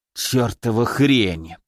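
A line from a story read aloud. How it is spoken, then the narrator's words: Hiss. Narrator (Russian): прошипел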